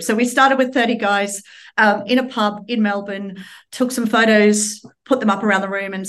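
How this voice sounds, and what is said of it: Slight Australian accent. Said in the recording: “You might still pick up some of my Australian accent”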